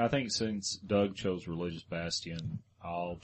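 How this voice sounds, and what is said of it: Usual voice. Nothing is said of it.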